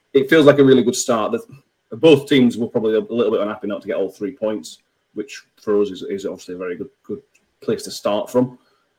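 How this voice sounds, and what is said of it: Broad Yorkshire accent. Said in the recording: “your broad Yorkshire accent is. It's truly remarkable”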